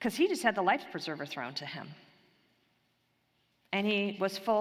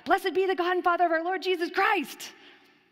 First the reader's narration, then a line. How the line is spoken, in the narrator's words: Peter spontaneously blurts out